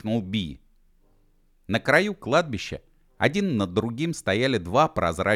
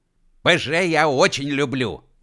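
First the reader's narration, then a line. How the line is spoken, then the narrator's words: Loud proclamation. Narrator (Russian): громко провозгласил Уэф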